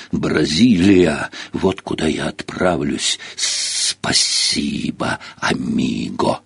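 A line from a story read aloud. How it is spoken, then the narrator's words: Distinct snake hiss. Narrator (Russian): змея отчетливо прошипела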